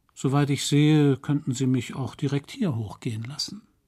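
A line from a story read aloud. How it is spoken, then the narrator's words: Man, almost gentle. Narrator (German): Der Mann sagte fast sanft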